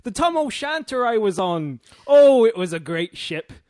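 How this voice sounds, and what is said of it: Put-on rural English pirate-like accent. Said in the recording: “Wiltshire accent?... Pretty good accent for Wiltshire... It's not a Wiltshire accent... He's just a pirate, I think.”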